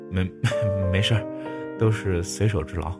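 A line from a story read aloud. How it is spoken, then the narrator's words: Awkward, laughing. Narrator (Chinese): 拘谨的不行，笑着说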